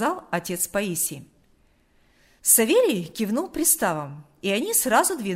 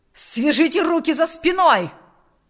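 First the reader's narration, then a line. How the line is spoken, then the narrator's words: Shouting. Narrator (Russian): кричал отец Паисий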